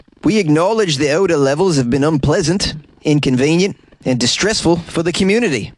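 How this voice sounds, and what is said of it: Put-on New Zealand accent. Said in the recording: “That was my New Zealand accent. How was it? Could you rate it? 1 through 10.”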